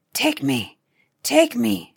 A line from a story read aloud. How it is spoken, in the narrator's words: she whispered hoarsely